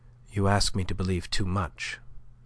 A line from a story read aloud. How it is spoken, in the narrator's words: said she, but her tone was softer than he had ever known it yet